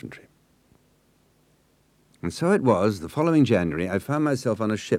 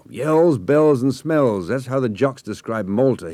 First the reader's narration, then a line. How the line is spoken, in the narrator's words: roared above the din